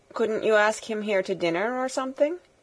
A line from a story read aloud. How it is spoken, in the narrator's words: said the Mole